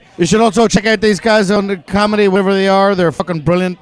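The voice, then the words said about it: Irish accent. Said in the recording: “Well, I'm Irish. ... our accent. Oh, they have a lovely accent”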